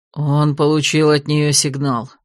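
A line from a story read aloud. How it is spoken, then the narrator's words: Gloomy mutter. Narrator (Russian): мрачно буркнул Год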